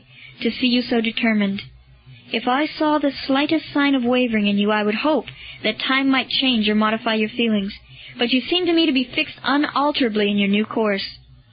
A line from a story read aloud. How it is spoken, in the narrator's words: said Lucullus sadly